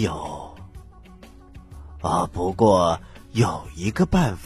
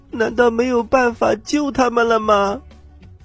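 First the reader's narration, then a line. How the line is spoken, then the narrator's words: Crying question. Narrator (Chinese): 姑娘一边哭泣一边问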